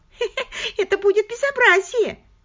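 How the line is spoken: Giggling again. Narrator (Russian): Она опять хихикнула

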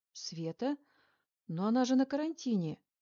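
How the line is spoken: Involuntary exclamation. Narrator (Russian): невольно воскликнула я

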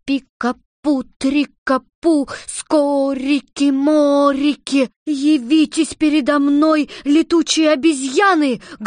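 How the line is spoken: Loud shout. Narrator (Russian): громко закричала Элли

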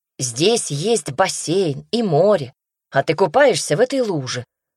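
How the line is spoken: Angry shout, loud echo. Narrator (Russian): Злобно выкрикнул Даня, и звук его голоса оттолкнулся о каменные булыжники искусственной скалы и отозвался громким эхом

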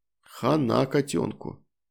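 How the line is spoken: Quiet comment. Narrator (Russian): негромко прокомментировал

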